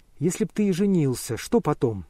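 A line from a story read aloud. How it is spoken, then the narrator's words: Plain. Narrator (Russian): спросила она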